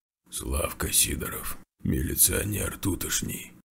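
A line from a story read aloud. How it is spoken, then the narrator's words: Sick person rasping. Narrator (Russian): хрипнул больной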